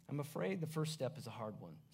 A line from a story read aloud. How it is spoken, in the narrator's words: said the spirit